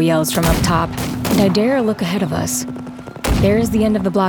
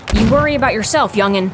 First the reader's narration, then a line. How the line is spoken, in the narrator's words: she yells back